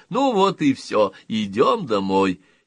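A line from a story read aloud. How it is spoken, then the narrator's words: Loud. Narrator (Russian): громко говоря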